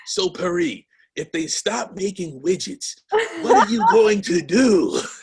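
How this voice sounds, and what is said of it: Imitates another person's voice. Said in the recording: “my Sean impersonation.”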